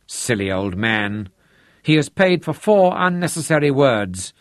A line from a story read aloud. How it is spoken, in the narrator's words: Aunt Trudy grumbled